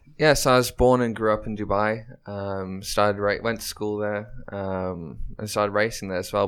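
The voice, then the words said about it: English accent. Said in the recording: “you have an English accent”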